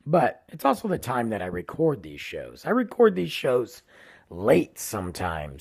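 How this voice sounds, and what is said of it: Tired, failing hoarse voice. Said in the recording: “losing my voice today, guys... I'm tired or I'm losing my voice ... Can't get much, much of a voice after”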